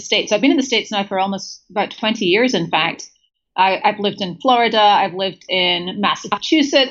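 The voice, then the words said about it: British, Scottish-raised accent. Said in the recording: “you have a very British accent ... good pickup on the accent. I did grow up in Scotland”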